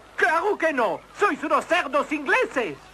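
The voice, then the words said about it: Exaggerated French accent. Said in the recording (Spanish): “¡Soy francés! Si no, ¿a qué venía este horrible acento?”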